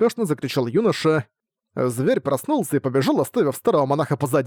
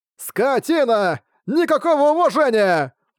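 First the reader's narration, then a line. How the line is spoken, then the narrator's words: Monk shouting out. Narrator (Russian): выкрикнул тот монах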